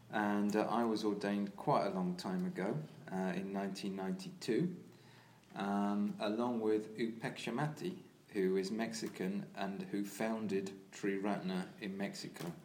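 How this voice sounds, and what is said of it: English accent. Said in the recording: “I'm English, as you may be able to hear from my accent.”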